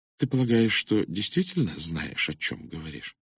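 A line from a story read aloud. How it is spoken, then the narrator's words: Quiet question. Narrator (Russian): Она тихо спросила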